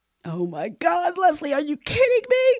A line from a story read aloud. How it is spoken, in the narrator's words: replied hysterically